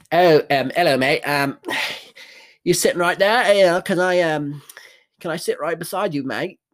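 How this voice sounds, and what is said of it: Bad fake English accent. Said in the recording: “bullshit English accents that are so bad ... This is not a real accent.”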